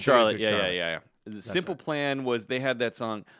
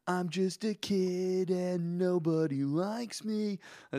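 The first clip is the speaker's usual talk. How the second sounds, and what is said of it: Whiny punk singer voice. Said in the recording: “really whiny ... really good punk impersonation”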